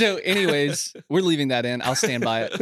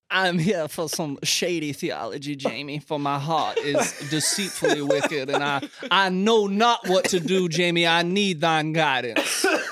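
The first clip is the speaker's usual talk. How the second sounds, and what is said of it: Exaggerated old-fashioned Southern accent. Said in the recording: “Why are we doing so many accents this episode? I feel like this is like the fifth or sixth accent we've done. ... Gone with the Wind in here.”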